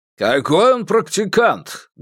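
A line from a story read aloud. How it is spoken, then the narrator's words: Rough interruption. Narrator (Russian): грубо оборвал его Сюй Жуй Лун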